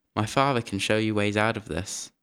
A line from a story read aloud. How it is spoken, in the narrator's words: he said in a calm voice